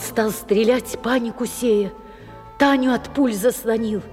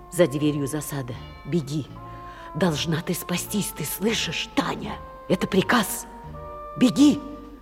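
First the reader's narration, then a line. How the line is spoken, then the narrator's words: Soundless whisper. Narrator (Russian): прошептал одними губами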